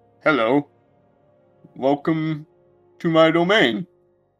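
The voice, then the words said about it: Very deep character voice. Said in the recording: “you hear a very deep voice.”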